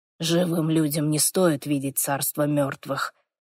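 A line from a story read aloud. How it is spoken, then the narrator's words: Soft demonic reply. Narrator (Russian): мягко ответил демон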